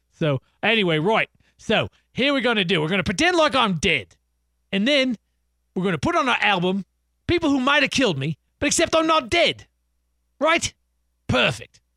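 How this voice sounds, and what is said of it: Mock Australian accent impression. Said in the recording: “if they were Australian. So we're pretending they're Australian ... my Paul McCartney impression ... You sound like the guy from District 9”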